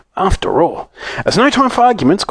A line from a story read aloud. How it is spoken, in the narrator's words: cried Mr